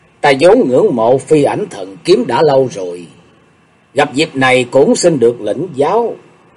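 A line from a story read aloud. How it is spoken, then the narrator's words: Smiling. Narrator (Vietnamese): Sùng đại sư lúc này chỉ mỉm cười nói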